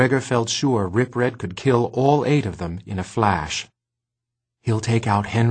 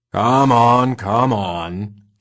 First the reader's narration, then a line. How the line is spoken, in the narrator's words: he growled